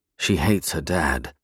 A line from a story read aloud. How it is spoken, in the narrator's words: I mumbled, a fact that wasn't intended for his ears